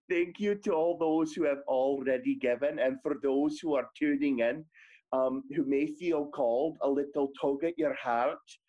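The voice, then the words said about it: Scottish accent. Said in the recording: “this gorgeous Scottish accent”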